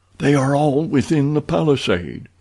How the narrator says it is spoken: he whispered

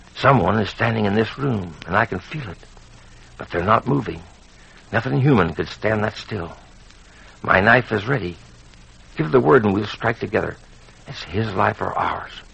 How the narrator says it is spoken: he whispered

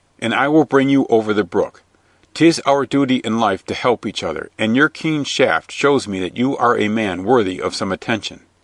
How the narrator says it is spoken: he shouted back

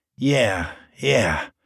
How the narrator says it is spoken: mumbled the chubby young man, sweating

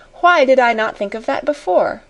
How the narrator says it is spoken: she exclaimed

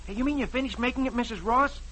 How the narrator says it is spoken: Dick exclaims

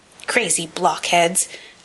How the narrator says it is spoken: snapped the dwarf

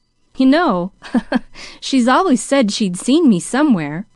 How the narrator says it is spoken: chuckled Jimmy

